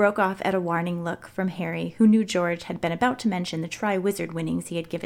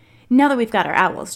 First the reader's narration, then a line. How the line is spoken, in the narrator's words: George said hastily